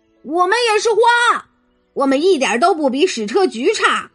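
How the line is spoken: Weeds shouting outside. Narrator (Chinese): 野草们在门外喊道

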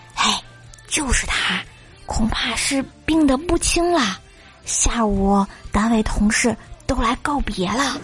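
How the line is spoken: Low voice. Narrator (Chinese): 有人低声说

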